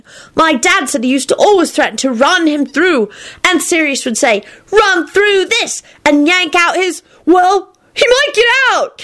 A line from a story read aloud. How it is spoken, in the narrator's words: Kenny shrieked frantically